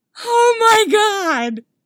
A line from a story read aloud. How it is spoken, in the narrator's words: Tony yells gleefully